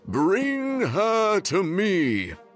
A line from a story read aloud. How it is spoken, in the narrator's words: bellowed the king